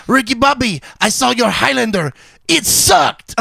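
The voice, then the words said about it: Put-on French accent. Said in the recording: “my French accent sounds like that... it's not bad... I thought we were in France for a second.”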